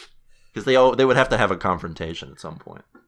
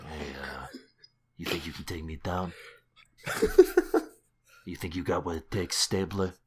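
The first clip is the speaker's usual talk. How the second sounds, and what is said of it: Imitates a TV character's voice. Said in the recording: “I don't know how that accent... I don't know how that Tony Soprano impression is going”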